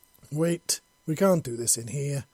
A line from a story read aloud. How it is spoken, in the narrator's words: he exclaimed